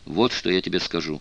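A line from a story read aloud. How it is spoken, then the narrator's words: Plain. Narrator (Russian): сказал он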